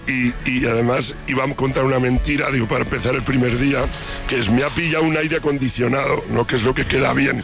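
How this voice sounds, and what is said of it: Hoarse, nearly lost voice. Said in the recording (Spanish): “Uy, esa voz, ¿cómo la tienes? ... estoy afónico ... estuve cantando como un perro”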